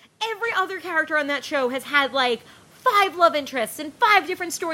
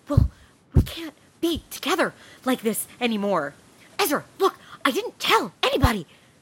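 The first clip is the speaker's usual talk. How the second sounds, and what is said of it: Imitates a TV character's voice. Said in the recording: “this is my impression of an Ezra and Arya storyline ... You do a perfect Arya impression.”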